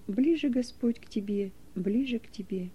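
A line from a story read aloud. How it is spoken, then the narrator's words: Soft singing. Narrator (Russian): Неверов тихо напевал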